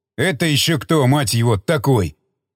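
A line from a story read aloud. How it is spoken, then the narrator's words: Growled. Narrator (Russian): рыкнул старший сержант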